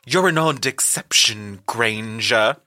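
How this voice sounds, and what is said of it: Stilted upper-class British voice, Bellatrix. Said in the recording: “No, she would be more like stilted upper class.”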